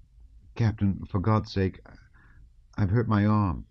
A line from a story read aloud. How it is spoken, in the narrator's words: he said timidly